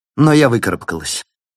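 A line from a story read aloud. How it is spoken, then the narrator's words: Abrupt, clipped. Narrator (Russian): отрывисто проговорила она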